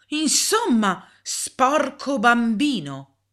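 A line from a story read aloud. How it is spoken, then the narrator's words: Exclaiming. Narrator (Italian): La signorina Bird esclamò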